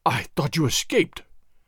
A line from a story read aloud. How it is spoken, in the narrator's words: Don Carlos gasped again, seemingly unable to think of anything else